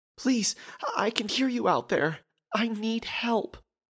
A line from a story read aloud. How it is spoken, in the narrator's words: pleaded the woman